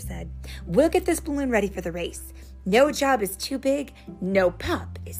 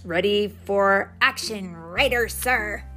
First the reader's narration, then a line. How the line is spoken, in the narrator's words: Chase barked